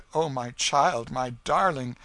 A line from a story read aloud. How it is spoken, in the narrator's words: she cried